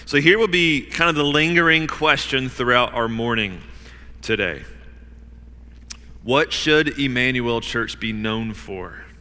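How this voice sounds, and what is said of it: Hoarse, fading voice. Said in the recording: “losing my voice.”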